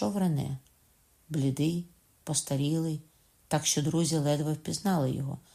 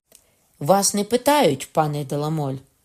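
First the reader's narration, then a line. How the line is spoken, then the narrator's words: President's shout. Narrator (Ukrainian): крикнув президент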